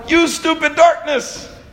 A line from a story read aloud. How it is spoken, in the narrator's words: God does not yell